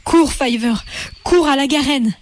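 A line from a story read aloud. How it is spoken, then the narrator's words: Exclaimed. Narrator (French): s'écria Hazel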